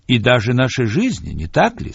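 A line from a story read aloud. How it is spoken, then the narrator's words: Plain. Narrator (Russian): спросил я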